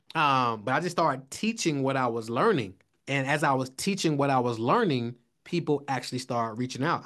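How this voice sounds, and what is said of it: Atlanta accent. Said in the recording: “got an Atlanta accent.”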